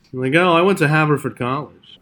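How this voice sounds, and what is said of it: Mocking impression of baseball executives. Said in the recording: “doing an impression of all the baseball executives who wouldn't return our texts ... It's just funny to say in that voice.”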